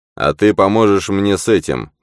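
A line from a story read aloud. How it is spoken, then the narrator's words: Commanding. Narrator (Russian): повелительным тоном произнес маэструм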